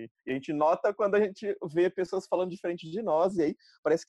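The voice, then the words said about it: Interior São Paulo accent, rolled R. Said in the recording (Portuguese): “dá pra ver pelo seu sotaque, você é paulista ... eu sou do interior de São Paulo, falo porta, carne ... zombação em relação ao meu R”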